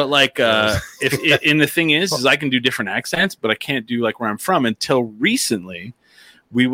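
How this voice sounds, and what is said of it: Usual voice. Nothing is said of it.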